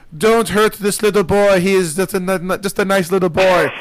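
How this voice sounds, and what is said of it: Poor put-on Scottish accent. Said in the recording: “that's a horrible Scottish accent.”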